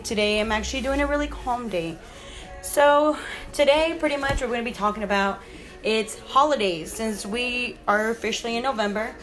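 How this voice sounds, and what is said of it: Rough, sick-sounding voice. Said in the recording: “my voice is a little bit kind of like rough, but I am kind of sick”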